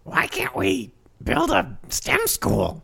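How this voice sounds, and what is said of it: Imitates Marge Simpson cartoon voice. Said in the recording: “Can you do the Marge voice, please? ... That's really good. ... That's pretty good. ... That's solid. That's a pretty solid Marge.”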